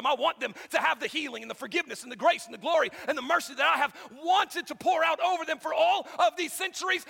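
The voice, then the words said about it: Very fast auctioneer-like speech. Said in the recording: “I'm talking like an auctioneer”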